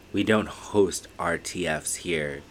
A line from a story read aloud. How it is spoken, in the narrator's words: he said, flatly, voice low, almost like he was sharing a secret no one cared to know